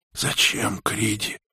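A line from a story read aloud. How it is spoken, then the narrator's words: Hoarse question. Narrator (Russian): хрипло спросила Анги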